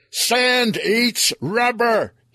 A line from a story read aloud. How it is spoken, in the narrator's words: he yelled